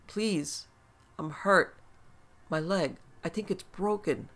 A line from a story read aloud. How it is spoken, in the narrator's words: the voice pleaded